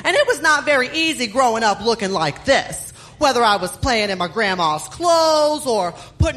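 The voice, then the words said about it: Texan accent. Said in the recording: “as you could tell from my accent, I am from Dallas, Texas”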